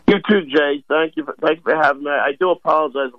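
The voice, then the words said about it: Slightly hoarse voice. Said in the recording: “if I sound a little hoarse”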